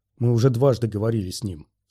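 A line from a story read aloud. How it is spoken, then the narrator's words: Calm. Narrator (Russian): сказал Оби-Ван спокойно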